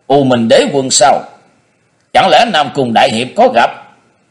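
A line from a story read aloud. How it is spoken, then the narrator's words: Sudden exclamation. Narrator (Vietnamese): Cung Hàng Băng bỗng thốt lên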